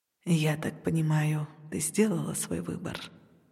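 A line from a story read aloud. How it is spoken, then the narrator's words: Gentle, slightly surprised question. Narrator (Russian): Нежно и, кажется, немного удивленно спросил хранитель, будто не веря самому себе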